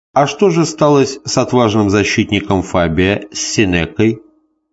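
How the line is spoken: Plain question. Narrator (Russian): спросил Даркон

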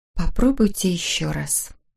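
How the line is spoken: Whisper. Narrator (Russian): прошептала

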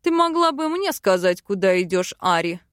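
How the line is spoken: Man barking reply. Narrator (Russian): Рявкнул в ответ мужчина

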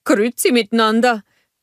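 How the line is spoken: Calling out. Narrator (German): rief Oaken

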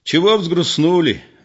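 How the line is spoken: Cheerful loud voice. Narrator (Russian): весело и громко сказал Егор

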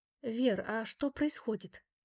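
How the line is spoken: Barely audible question. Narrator (Russian): едва слышно спросила мама

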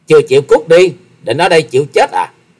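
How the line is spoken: Young woman's sudden loud shout. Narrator (Vietnamese): Thiếu nữ áo đen chợt quát to

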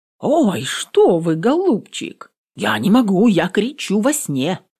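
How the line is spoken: Exclaimed. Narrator (Russian): воскликнула бедная Раневская

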